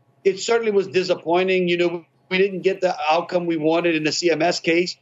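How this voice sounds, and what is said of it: Cajun Louisiana accent. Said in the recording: “It's definitely Louisiana. That Cajun accent is it's beautiful.”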